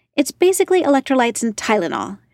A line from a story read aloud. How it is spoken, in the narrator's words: she snapped